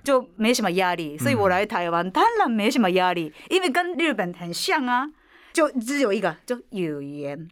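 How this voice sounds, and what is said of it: Slight foreign accent in Mandarin. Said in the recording (Chinese): “我是有口音的台湾人……我有有口音”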